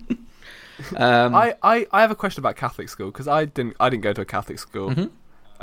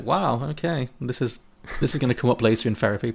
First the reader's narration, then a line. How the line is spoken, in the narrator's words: quietly was like